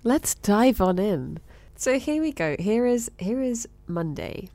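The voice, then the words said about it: Put-on radio presenter voice. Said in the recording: “radio voice”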